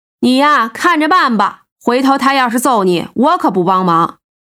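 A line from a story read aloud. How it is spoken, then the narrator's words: Chuckling. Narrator (Chinese): 胖子笑呵呵的补充道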